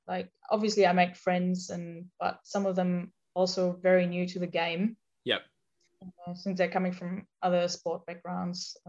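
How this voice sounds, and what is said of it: Non-native English accent. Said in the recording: “I obviously have an accent. ... people keep asking me where I'm from ... in Germany”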